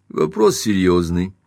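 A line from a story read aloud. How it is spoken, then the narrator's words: Calm. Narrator (Russian): сказал Каупервуд спокойно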